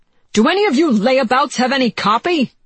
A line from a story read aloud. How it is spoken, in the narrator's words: he shouted